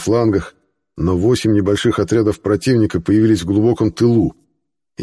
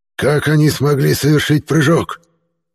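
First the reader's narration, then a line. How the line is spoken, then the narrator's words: Bewildered hiss. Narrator (Russian): Непонимающе прошипел Варван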